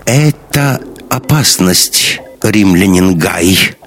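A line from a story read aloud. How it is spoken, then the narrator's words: Plain. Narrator (Russian): говорит она наконец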